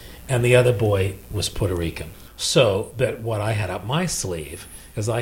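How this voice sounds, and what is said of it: Usual voice. Nothing is said of it.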